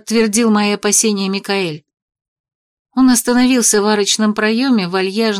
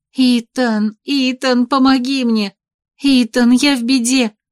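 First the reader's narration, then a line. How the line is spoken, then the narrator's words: Silent heartfelt plea. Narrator (Russian): взмолилась мысленно, всей душой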